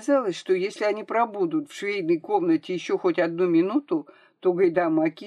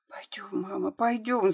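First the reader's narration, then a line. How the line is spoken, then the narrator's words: Whispering. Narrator (Russian): зашептала Марийка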